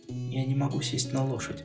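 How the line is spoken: Quiet. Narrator (Russian): тихо сказала Делл

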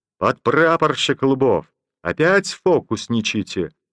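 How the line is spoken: Mock-stern shout. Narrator (Russian): притворно строго окрикнул его Слива

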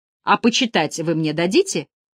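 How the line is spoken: Offended questioning tone. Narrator (Russian): спрашивает обиженным тоном

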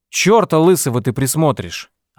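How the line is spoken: Snapping retort. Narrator (Russian): огрызнулась Этель

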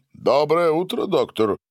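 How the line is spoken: Loud greeting. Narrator (Russian): громко приветствовал его Гарин

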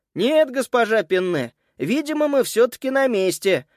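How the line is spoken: Loud announcement. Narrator (Russian): громко сообщил он

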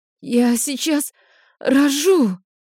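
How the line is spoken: Exhausted breathless gasp. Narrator (Russian): выдохнула из последних сил

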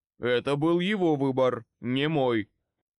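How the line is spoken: Snorting. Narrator (Russian): фыркнул Кордис

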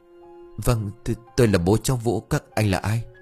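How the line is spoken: Frightened stammering. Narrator (Vietnamese): Ông Xuân mặt tái dại lắp bắp

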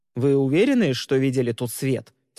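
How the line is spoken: Stern question. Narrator (Russian): строго спросил Трестин

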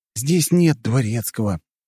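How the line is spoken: Gloomy. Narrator (Russian): мрачно сообщил я ему

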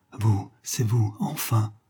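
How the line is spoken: Tender triumphant murmur. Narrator (French): Attendrie et triomphante, heureuse de ces transports inattendus, Johanna murmura

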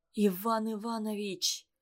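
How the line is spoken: Frightened whisper. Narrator (Russian): произносит он испуганным шепотом

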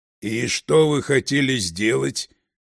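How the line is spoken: Husky but calm. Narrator (Russian): хрипловато, но спокойно спросил бородач

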